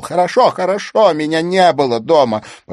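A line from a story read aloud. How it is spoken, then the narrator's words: Nearly shouting. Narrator (Russian): почти выкрикнул Робертсон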